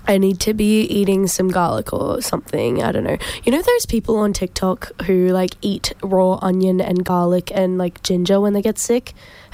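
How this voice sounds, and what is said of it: Nasal, raspy sick voice. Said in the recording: “Apologies for my voice... How nasally... it's raspy... I've got the sickness, the Brisbane plague”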